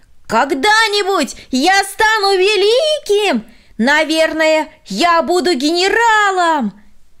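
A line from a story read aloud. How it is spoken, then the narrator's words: Shouted from afar. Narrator (Russian): Еще издали он прокричал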